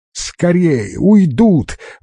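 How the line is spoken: Excited shout. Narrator (Russian): возбужденно выкрикнул Али

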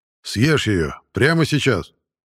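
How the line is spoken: Commanding tone. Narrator (Russian): приказным тоном сказал начальник академии

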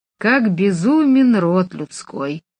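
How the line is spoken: Sighed. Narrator (Russian): вздохнул он

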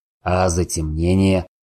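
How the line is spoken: Wry snort. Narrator (Russian): хмыкнул Сорил

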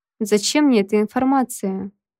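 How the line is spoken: Nervous laugh. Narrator (Russian): нервно хохотнула я

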